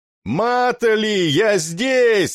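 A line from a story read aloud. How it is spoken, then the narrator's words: Shouted reply. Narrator (Russian): заорал я в ответ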